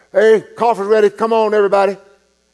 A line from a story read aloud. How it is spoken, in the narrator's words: he called out over the intercom